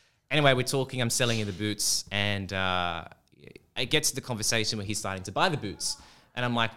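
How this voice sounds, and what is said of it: Usual voice. Nothing is said of it.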